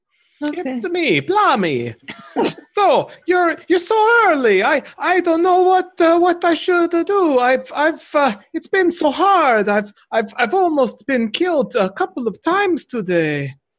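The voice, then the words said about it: Put-on Italian accent. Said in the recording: “Italian hands floating in the air whenever Blommy Wisdo speaks, gesturing right along to go with this accent.”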